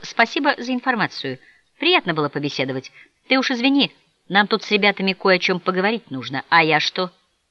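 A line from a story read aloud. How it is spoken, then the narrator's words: Quiet, embarrassed, to himself. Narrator (Russian): Негромко и как-то смущенно, словно обращаясь в первую очередь к самому себе, он сказал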